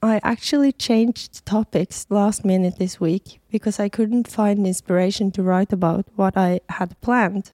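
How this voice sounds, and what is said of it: Hoarse voice from a cold. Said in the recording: “sorry about my voice. I think I'm about to lose it to my new cold.”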